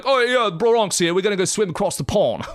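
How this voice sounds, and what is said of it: Bad imitation of Brooklyn accent. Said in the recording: “that's a terrible Bron- Brooklyn accent”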